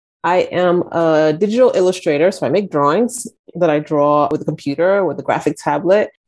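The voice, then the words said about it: American accent. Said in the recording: “I have this American accent”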